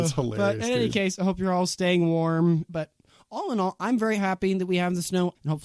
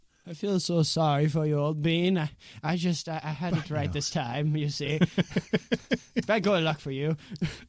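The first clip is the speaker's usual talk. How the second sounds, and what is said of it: Put-on British accent. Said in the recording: “me and my British accent ... I am on a British swing this evening, I guess, for my jokes”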